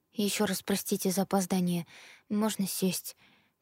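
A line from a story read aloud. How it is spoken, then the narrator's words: Uneasy mumble. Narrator (Russian): промямлила я, чувствуя себя крайне неуютно перед толпой зрителей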